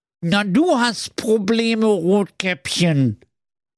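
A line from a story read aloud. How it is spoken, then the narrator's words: Whimpering squid. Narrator (German): wimmerte der Tintenfisch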